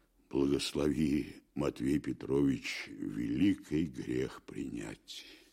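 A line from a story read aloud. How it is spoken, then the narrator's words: Firm. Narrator (Russian): Твердо вымолвил Аблаев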